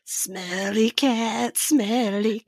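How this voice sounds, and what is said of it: Husky sultry Phoebe-style sung voice. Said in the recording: “I'm still getting over my sinus infection... I sounded real hot... Phoebe's sexy voice.”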